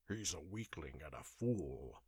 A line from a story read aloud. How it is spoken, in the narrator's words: growled